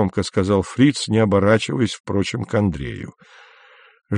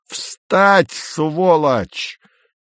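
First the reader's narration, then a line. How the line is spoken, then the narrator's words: Sudden full-throated yell. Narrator (Russian): неожиданно заорал Фриц во все горло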